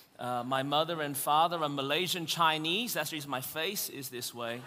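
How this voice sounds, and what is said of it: Australian accent. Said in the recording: “I was born in Melbourne, Australia. That's the reason my voice is this way.”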